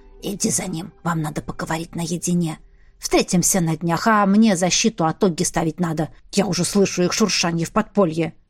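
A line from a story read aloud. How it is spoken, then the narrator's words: Whisper. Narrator (Russian): Гризелла шепнув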